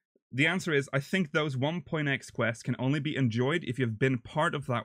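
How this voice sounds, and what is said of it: Usual voice. Nothing is said of it.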